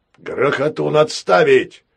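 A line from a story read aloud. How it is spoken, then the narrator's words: Barked from deck. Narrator (Russian): рявкнул с палубы знакомый голос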